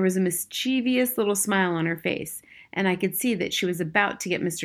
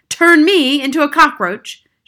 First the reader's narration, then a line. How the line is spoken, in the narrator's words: shouted Mr